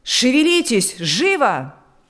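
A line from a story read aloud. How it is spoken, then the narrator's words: Shout. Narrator (Russian): закричал он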